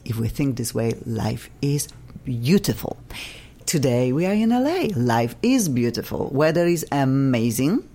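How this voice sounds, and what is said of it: Non-native accent in English. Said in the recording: “I still have funky accent, still speak funky English.”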